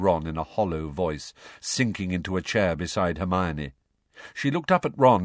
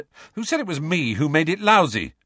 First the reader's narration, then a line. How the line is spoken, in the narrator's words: snapped Ron